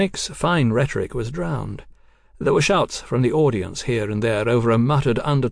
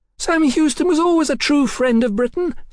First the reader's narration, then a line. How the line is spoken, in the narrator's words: Sybil shrieked into the crowd's upturned faces